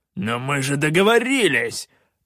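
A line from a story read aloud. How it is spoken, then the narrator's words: Barked. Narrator (Russian): рявкнул Калаан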